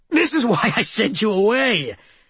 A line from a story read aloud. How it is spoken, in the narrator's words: Tom exclaimed when he came up for air